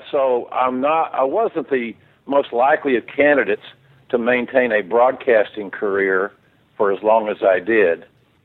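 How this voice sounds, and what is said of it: Southern American accent. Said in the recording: “I've got a southern accent, as anybody that has hearing can determine.”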